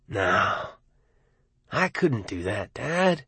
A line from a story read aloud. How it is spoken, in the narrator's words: Arnie said gently, as if speaking to a child